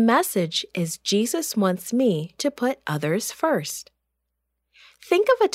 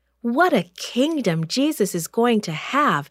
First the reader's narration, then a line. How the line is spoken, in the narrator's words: exclaimed James